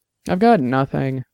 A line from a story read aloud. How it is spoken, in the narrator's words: said miserably